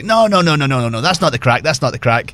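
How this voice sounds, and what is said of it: Imitated Irish accent. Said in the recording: “In his classic Irish accent.”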